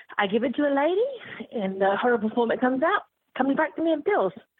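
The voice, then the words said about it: British accent. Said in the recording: “she's from England. And she has a delightful British accent.”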